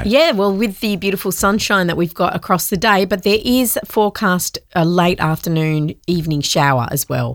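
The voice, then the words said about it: Sniffly, congested voice with cold. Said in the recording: “you sound a bit sniffly ... I've got a cold. I've got a bit of a sore throat ... My ear's blocked”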